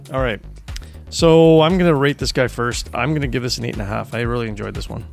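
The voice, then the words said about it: Hoarse, strained voice. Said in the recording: “losing my voice.”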